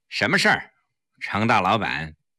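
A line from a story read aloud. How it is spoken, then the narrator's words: Cold. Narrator (Chinese): 黄翠微冷冷地说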